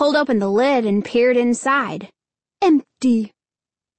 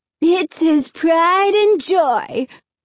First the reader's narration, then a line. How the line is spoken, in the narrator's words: Alan sneered